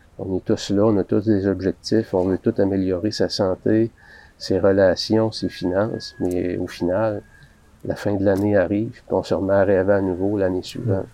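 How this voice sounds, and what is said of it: Quebecois French accent. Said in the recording (French): “québécois. ... son accent.”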